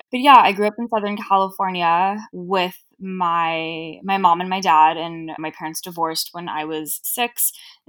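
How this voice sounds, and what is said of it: Southern California Valley girl accent. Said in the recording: “I'm from LA originally, hence why I have the accent of Cher from Clueless”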